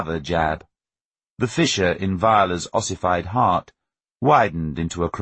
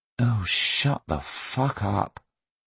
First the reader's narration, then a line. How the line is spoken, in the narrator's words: Viola said wearily